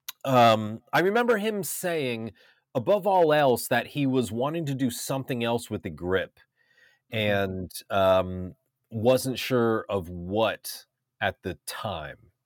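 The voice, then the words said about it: Stuffy, congested nasal voice. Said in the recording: “I have a little cold, so my nose is a little stuffy”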